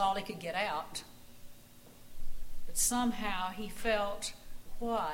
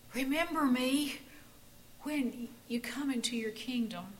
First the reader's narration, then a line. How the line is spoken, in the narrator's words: he gasped